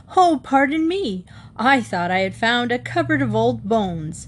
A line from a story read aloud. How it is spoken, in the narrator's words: Herbert laughed and said